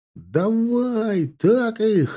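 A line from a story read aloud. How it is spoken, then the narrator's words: Joyful yelling. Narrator (Russian): заорал на радостях Димка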